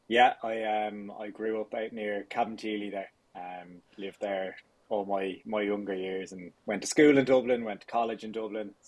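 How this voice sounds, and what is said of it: Dublin Irish accent. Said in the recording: “I'm detecting from your accent that you were born in the Greater Dublin area”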